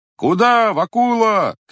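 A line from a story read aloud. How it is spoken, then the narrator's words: Shouting group. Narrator (Russian): кричали парубки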